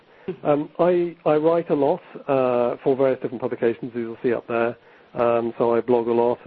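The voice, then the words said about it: English accent. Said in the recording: “this chap with a strange English accent”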